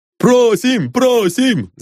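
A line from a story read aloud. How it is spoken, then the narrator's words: Crowd shouting. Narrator (Russian): закричали все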